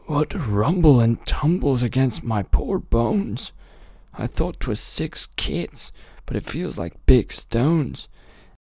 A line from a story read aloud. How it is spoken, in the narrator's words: cried he